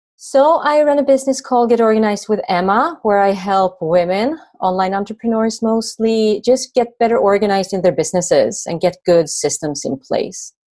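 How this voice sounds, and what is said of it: Swedish accent. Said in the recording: “I live just north of Stockholm in Sweden. You can probably tell from my accent.”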